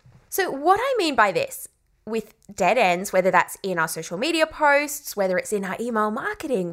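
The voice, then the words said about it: English accent. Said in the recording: “I think it's just my English, old English accent kind of coming through there”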